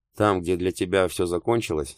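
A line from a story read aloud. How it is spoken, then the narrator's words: Dry and sober. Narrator (Russian): сказала она сухо и трезво, несмотря на количество выпитого пива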